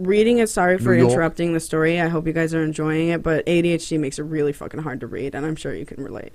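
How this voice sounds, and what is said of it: Usual voice. Nothing is said of it.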